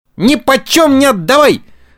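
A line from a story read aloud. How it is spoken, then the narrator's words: Yelled. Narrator (Russian): завопил Буратино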